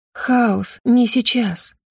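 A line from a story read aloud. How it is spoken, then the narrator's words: Whisper. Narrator (Russian): прошептала я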